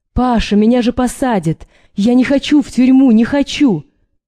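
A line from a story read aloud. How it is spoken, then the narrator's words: Tearful shout over rain. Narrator (Russian): глотая слезы, вместе с проливным дождем прокричала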